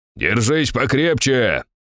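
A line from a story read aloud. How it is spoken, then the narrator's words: Shouted. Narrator (Russian): крикнул я Чертановой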